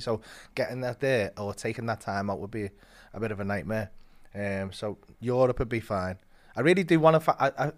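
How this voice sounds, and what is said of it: Scouse Liverpool accent. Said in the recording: “Southern England really struggle with my accent ... people can understand Scouse in Denmark so well”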